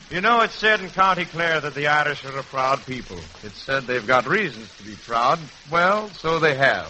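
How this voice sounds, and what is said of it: Heavy put-on Irish brogue. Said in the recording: “That's a heck of an Irish brogue I've got, but I hope you understand it.”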